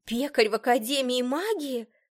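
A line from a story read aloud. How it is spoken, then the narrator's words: Exclaiming. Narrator (Russian): воскликнула она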